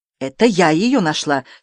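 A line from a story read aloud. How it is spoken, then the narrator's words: Angry objection. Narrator (Russian): сердито возразила Полина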